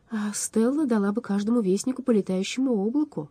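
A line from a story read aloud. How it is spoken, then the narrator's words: Sighing. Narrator (Russian): вздохнул Алмарон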